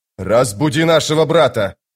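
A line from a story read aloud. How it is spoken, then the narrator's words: Shouting. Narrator (Russian): прокричал он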